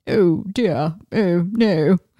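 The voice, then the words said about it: Good put-on posh British accent. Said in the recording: “very upper class British... that was a very good impersonation... Of that, darling.”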